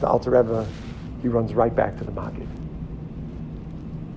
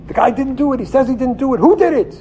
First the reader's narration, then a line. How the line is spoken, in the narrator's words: he starts yelling in the kitchen